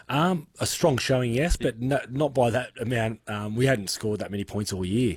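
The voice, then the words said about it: Slightly hoarse voice. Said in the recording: “My throat's a bit sort of hoarse”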